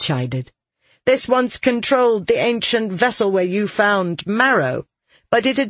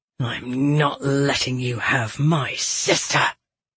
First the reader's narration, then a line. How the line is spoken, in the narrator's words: Toron growled